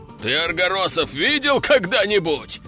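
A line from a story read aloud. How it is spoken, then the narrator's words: Loud laughter. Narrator (Russian): Расхохотался он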